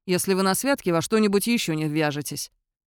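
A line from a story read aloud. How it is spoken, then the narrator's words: Grumbling. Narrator (Russian): проворчал Фаркаш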